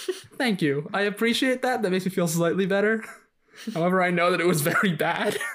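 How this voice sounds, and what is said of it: Usual voice. Nothing is said of it.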